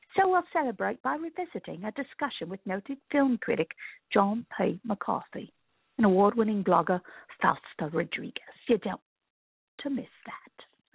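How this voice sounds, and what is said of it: Poor Michael Caine impression. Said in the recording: “That was my terrible Michael Caine accent. Michael Caine accent.”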